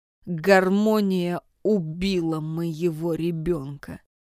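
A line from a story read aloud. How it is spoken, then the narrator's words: Slow, reflective. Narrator (Russian): медленно произнес Маркус, словно заново напоминая себе значение этой фразы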